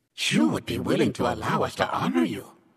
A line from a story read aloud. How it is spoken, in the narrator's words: Baersh asked eagerly